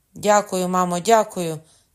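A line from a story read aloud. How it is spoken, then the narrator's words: Young man shouting. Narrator (Ukrainian): крикнув молодий хлопець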